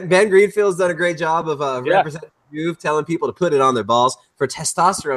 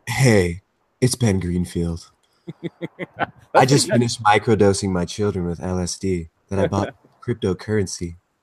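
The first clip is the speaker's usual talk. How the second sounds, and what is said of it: Weak Ben Greenfield impression. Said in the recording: “do a Ben Greenfield impression ... That was bad. That wasn't a good one. ... I got the hey was right. The hey is the only one I can do.”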